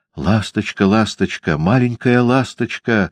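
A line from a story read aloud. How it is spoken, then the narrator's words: Happy pleading. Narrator (Russian): взмолился счастливый принц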